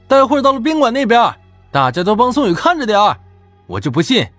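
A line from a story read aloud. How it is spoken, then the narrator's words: Loud, satisfied. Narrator (Chinese): 杨宁显然很是满意，高声对我们说道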